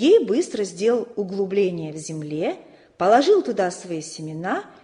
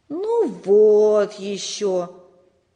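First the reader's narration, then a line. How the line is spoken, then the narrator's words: Disappointed drawl. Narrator (Russian): разочарованно протянул Сережа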